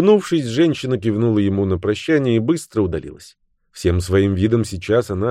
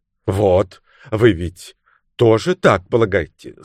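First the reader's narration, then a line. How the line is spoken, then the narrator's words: Calmer, satisfied exclamation. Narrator (Russian): заметно успокоившись, удовлетворенно воскликнул лорд Уитфилд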